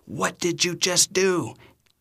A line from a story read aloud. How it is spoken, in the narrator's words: everything in them is screaming